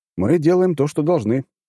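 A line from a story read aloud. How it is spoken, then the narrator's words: Answer then shout. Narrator (Russian): ответил я и сразу крикнул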